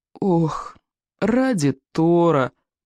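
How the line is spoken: Miserable groan. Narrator (Russian): простонал несчастный Икинг

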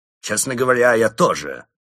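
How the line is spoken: Grumbling. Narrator (Russian): проворчал Крот

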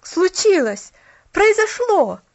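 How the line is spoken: Boy's exclamation. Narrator (Russian): воскликнул парнишка

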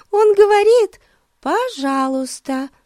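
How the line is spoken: Giggling explanation. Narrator (Russian): Хихикнув, объяснила Бетси

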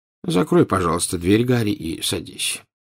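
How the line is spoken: Tired voice. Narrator (Russian): устало сказал Дамблдор

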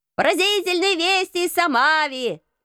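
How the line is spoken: Newsboy shouting. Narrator (Russian): кричал газетчик

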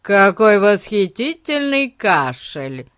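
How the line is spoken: Loud. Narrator (Russian): громко произнес Пип

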